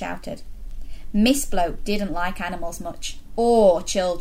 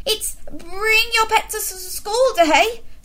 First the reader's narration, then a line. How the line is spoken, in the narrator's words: spluttered Mr